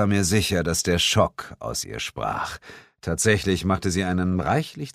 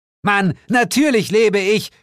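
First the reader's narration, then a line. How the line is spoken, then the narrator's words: Screamed. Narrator (German): schrie sie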